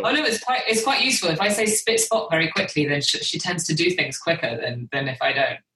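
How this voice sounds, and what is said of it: British accent. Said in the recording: “I'm the one with the British accent.”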